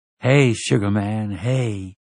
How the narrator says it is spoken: she murmured

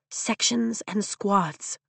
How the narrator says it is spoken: I whisper to Rhiannon

